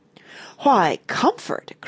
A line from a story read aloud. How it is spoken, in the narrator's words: cried the lady again